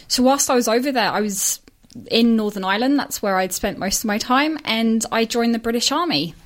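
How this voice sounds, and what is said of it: British-sounding accent. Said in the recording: “as you probably tell from my accent, wasn't brought up here. So I'm Australian, but was brought up in the UK.”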